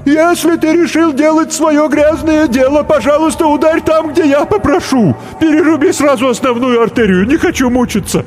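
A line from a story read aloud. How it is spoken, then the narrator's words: Tree shouting. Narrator (Russian): клен закричал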